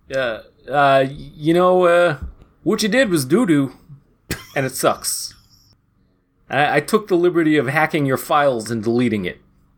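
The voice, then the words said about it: Imitates another person's voice. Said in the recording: “What is that voice? ... Joe Mantegna? ... Joe Mantegna as Gary Libsyn.”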